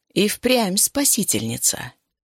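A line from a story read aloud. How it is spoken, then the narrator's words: Purring. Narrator (Russian): промурлыкал знакомый голос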